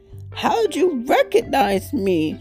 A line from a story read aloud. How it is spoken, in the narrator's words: wailed Turkey